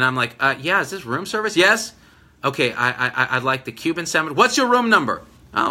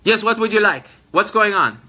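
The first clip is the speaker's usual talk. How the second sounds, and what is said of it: Middle Eastern accent. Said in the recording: “she has a Middle Eastern accent”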